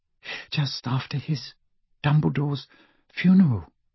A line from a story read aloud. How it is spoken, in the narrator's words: said Hermione in an even smaller voice